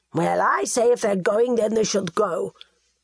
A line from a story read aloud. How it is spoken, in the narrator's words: Hervis snapped